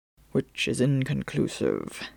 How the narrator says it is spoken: Phelps muttered to himself

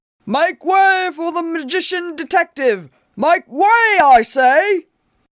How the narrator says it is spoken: Cullens bellowed above the racket

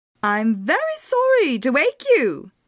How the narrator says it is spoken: he said in a clear, piercing voice

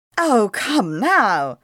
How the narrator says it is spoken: cried Caleb

